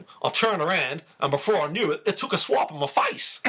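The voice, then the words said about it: Put-on Australian accent. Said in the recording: “I'll try and do this in an Australian accent.”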